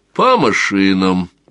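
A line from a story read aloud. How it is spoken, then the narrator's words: Calm command. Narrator (Russian): Распорядился он спокойно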